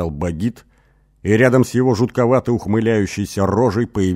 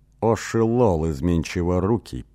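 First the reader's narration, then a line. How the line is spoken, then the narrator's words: Confused mutter. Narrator (Russian): пробормотал в конец сбитый с толку Эсмар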